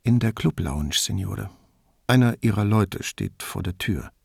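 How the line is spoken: Very quiet whisper. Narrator (German): flüsterte Rezzante so leise, dass nur Brunetti es hören konnte

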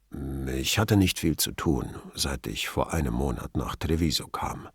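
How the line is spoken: Forced calm. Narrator (German): meinte er bemüht ruhig

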